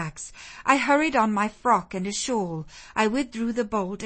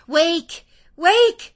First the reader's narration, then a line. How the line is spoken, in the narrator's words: I cried